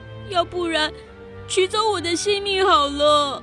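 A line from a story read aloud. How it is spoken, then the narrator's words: Pleading. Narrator (Chinese): 奥利弗 … 哀求道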